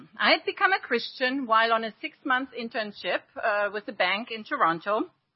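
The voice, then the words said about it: German accent. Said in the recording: “I was born and raised in Germany ... my accent gives it away”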